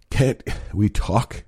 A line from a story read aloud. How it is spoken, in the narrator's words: I gasped, forcing air back into my lungs